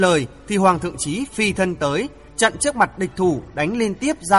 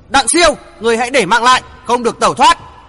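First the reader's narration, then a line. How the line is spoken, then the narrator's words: Loud shout. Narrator (Vietnamese): Hoàng Thượng Chí hét lớn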